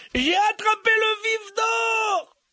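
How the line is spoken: Yelled. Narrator (French): hurla-t-il

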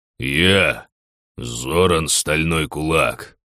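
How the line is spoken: Haughty growl. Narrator (Russian): рыкнул поднявшийся во весь рост принц

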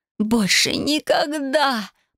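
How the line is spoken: Pained moan. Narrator (Russian): простонала я, до крови кусая губы

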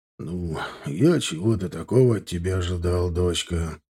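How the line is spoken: Sighing. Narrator (Russian): снова вздохнул ректор

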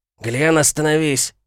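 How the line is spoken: Bark. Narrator (Russian): рявкнул второй

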